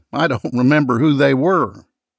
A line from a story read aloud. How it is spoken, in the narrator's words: he said with a chuckle